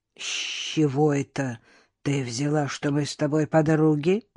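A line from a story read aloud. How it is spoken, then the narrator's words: Quiet growl. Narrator (Russian): тихонько рыкнула Анюта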